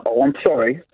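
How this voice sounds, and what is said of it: Sarcastic tone. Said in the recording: “now you're being sarcastic.”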